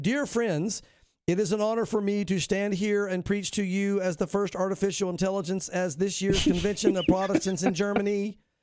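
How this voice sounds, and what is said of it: Flat monotonous AI preacher voice. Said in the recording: “with an expressionless face and monotonous voice ... That was a great impression. ... You are good at impressions.”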